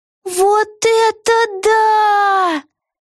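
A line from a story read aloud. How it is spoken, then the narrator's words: Admiring exclamation. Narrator (Russian): восхищенно воскликнула Вега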